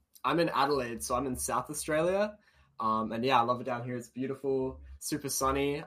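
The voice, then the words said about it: Australian accent. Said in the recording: “you can hear it in his accent, but he's in the land down under”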